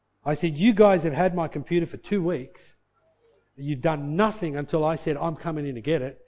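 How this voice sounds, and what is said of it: Raised, louder angry voice. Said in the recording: “raising my voice”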